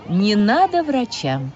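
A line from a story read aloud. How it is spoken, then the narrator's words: Calm. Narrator (Russian): спокойно сказала мама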